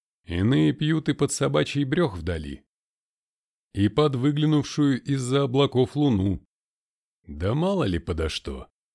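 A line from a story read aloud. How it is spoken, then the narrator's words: Casual offhand tone. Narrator (Russian): самым небрежным тоном говорили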